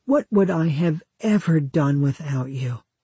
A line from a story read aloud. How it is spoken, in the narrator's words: a bride might sigh